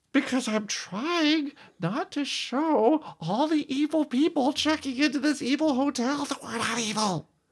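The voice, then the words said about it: Strained put-on voice. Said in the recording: “Why are you talking like that ... the way you were straining when you're trying to do that voice.”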